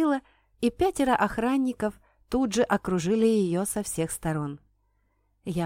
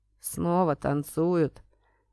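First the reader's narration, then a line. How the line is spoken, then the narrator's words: Gloomy statement. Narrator (Russian): мрачно заявил кучер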